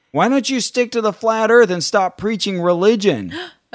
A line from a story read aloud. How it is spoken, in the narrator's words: this woman started yelling out